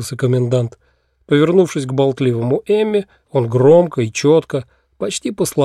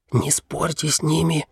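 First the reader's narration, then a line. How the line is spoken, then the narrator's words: Fervent whisper. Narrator (Russian): жарко зашептал он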